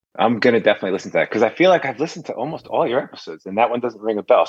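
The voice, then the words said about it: Classic New Jersey accent. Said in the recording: “You guys have a very kind of classic Jersey accent.”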